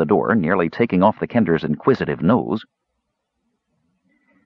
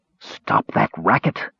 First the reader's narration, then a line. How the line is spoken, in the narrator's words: whispered Caramon loudly